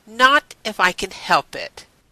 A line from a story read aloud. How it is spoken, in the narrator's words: Elizabeth said firmly